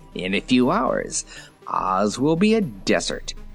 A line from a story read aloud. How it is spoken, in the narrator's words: said the chief of the Whimsies with an evil laugh